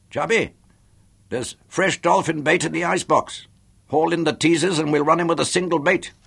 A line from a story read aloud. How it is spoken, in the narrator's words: I shouted despairingly